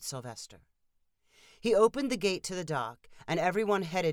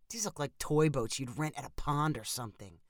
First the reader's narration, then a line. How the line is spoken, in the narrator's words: Steve whispered to his wife